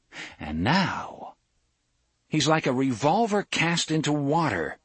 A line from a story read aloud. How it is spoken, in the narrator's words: Cuthbert exclaimed